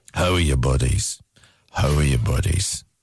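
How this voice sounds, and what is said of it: Imitates another person's voice. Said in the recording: “This is Liam Neeson as Keith Duffy.”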